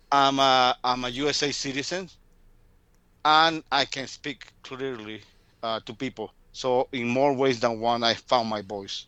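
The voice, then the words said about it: Latino accent in English. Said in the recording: “I can speak English with a very sexy Latino accent.”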